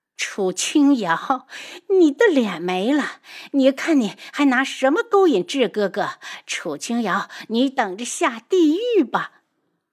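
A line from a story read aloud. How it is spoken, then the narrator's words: Mad, frenzied laughter. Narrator (Chinese): 素如意忽然疯狂的大笑起来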